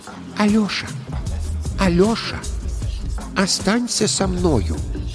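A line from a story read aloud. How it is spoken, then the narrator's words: Quiet speech. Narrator (Russian): тихонько ему говорит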